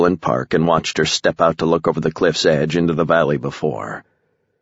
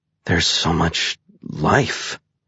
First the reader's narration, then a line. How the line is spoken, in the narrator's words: Mercury whispered